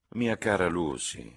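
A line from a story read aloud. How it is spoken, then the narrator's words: Mildly reproving tone. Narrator (Italian): disse la signorina Bartlett in tono di blanda riprovazione per l'acume della cugina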